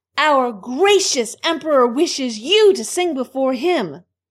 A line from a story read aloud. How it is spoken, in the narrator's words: called the little kitchen maid, quite loudly